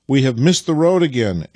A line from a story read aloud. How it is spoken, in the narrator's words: exclaimed Vasily